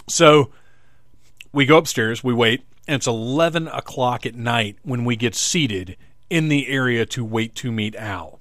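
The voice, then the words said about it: Hoarse voice. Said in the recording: “this hoarseness that seems to be developing after talking for an uninterrupted hour into this microphone”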